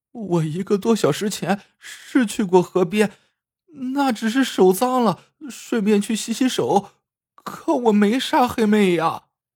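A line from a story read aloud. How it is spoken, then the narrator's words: Bursting into tears. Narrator (Chinese): 杏花哇的一声哭了出来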